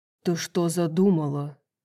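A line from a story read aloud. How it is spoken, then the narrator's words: Growling. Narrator (Russian): Зарычал Хант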